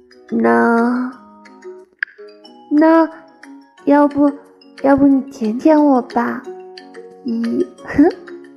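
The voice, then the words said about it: Shy, quiet mumbling. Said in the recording (Chinese): “低下头，羞羞的小声嘟囔”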